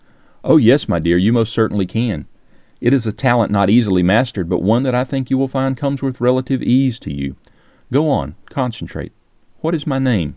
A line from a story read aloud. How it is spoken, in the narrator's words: he pressed gently